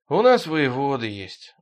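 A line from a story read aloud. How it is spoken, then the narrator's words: Sigh. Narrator (Russian): вздохнул Ироня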